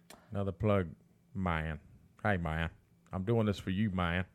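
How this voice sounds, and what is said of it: Fake accent imitating another person's voice. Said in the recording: “That probably sounds horrible, but that's supposed to be ... with your fake accent, it sounds really good.”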